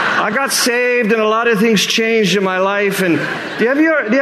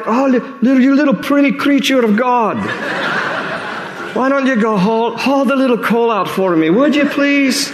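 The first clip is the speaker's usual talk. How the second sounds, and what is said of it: Put-on Scottish accent. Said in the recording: “I don't know why I've turned into a Scottish accent”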